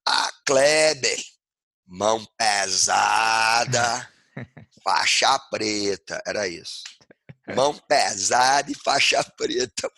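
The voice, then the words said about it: Imitated Brazilian Northeastern accent. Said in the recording (Portuguese): “imitando o sotaque nordestino”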